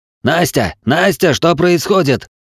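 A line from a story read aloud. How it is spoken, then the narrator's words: Strained yelling into phone. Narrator (Russian): Надрывая глотку, заорал в трубку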